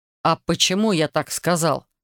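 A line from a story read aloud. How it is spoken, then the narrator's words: Sharp curt retort. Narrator (Russian): резко бросил он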